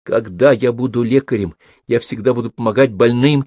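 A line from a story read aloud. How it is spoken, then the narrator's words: Nearly shouting. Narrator (Russian): чуть не закричал он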